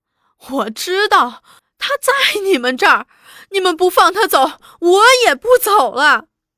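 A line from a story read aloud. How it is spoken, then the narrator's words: Tearful pleading. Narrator (Chinese): 那乡下女人只是哭求着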